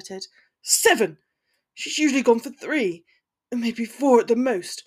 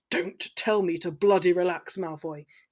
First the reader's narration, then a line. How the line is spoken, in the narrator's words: he spat